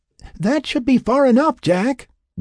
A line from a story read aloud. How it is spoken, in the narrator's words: Will hollered from the shore